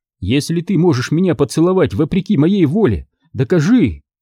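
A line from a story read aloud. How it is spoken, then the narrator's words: Exclaiming. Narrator (Russian): воскликнула она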